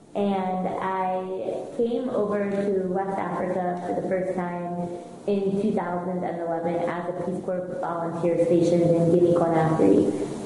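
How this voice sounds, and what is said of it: American English accent. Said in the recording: “I'm sure you can hear in my accent that I'm American”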